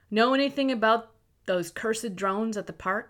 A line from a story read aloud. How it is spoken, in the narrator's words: he asked